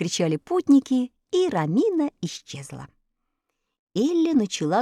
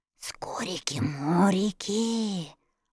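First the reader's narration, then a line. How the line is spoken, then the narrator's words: Whispered. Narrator (Russian): прошептал Страшила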